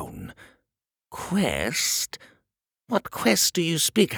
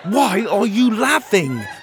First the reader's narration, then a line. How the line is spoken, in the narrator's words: Pockets shouted